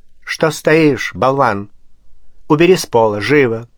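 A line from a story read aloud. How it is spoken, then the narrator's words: Regal tone. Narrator (Russian): царственным тоном произнесла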